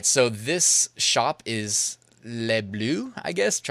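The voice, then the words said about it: Poor attempt at French accent. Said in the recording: “Trying to do a French accent, probably awful.”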